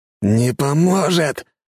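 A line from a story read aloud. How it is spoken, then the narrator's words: Angry roar. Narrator (Russian): гневно взревел жнец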